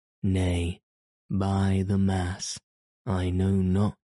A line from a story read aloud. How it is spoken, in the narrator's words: answered Dick